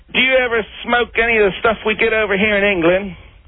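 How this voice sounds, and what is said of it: Poor put-on English accent. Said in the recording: “That's the most pathetic English accent I've ever heard, mate.”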